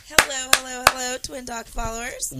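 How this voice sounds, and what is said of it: Raspy, hoarse voice. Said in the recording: “You're kind of raspy. Are you okay? ... I'm a bit raspy”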